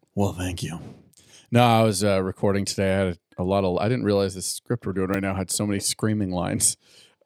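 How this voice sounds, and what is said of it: Hoarse, gravelly voice. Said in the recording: “if my voice is a little graspy today. ... It's got a nice gravelly tone to it.”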